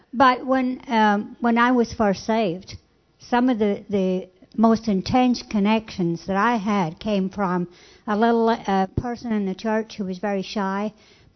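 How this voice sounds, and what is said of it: Speaks with a noticeable accent. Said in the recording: “my accent's getting in the way”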